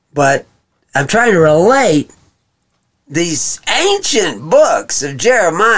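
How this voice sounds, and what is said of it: Usual voice. Nothing is said of it.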